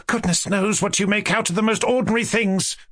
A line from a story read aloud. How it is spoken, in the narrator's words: cried Varya